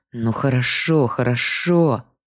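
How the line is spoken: Through gritted teeth. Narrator (Russian): сквозь зубы произнес он

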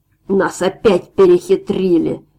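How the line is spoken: Angry shout. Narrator (Russian): злобно крикнул второй

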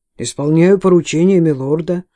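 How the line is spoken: Servant's gloomy reply. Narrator (Russian): мрачно отвечает слуга

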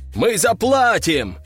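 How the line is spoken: Several voices shouting in chorus. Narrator (Russian): хором выкрикнули несколько голосов из толпы

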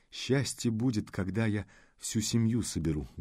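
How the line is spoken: Sad voice. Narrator (Russian): грустно произнесла

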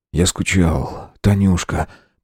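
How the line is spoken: Whisper. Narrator (Russian): прошептал

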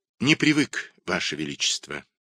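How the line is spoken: Sighing reply. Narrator (Russian): ответил Лита, вздохнув

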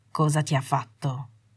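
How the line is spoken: Quiet voice. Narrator (Italian): disse a bassa voce

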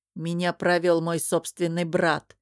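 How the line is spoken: Grumbling. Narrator (Russian): проворчал Ранмир

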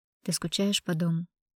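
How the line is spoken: Soft inquiry. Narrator (Russian): негромко поинтересовался Филипп

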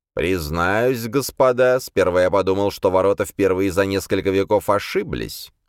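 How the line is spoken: Cold. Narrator (Russian): холодно сказал он

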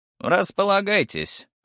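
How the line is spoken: Fat woman's snort. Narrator (Russian): хмыкнула толстуха

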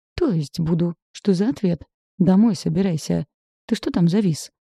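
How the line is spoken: Exclamation. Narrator (Russian): воскликнул Александр

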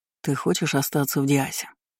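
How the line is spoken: Quiet question. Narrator (Russian): тихо спросил Айнан, должно быть, не желая будить, если она успела уснуть

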